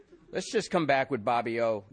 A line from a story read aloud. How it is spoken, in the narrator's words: Yolanda said